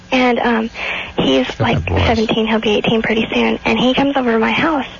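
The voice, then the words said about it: High breathy baby-girl voice. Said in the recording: “What's that voice? ... It's baby girl voice. ... that baby girl voice. It's a beautiful, sexy voice. ... Wow, that was a crazy voice.”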